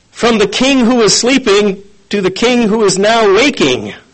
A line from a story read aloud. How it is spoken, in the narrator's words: the man yelled out